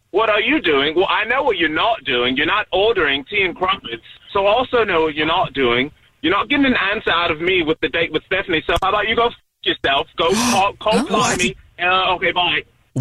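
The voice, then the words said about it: Put-on English accent. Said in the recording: “you showed me this whole accent thing ... You're saying that it's an accent ... I was born in Oxfordshire, so, yes, I was having an accent”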